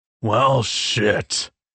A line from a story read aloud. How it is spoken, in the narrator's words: Irving grumbled